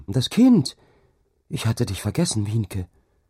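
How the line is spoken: Called out. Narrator (German): rief sie

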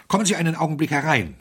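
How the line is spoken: Breathless. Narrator (German): sagte Smythe atemlos

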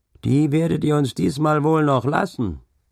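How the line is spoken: Shouted amid heated exchange. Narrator (German): rief einer von den Gestleuten, denn es ging scharf her

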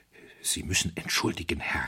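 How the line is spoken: Hoarse whisper. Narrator (German): flüsterte er heiser

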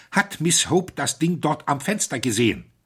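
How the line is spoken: Excited voice. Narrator (German): Smythe sagte mit erregter Stimme

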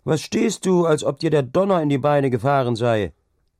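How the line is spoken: Calling out. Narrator (German): rief Hauke

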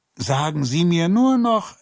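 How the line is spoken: Calling after someone. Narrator (German): rief ihr hinterher

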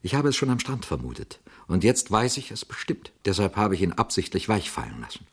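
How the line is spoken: Quiet young man. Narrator (German): sagte der junge Mann leise

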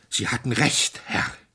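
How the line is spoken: Gasping male. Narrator (German): keuchte er

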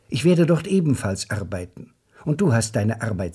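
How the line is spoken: Plain. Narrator (German): sagte sie

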